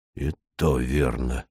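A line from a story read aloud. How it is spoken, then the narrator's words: Blacksmith's sigh. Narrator (Russian): вздохнул кузнец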